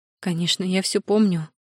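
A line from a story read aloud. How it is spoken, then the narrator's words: Confirming with deep sigh. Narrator (Russian): подтвердила, глубоко вздохнув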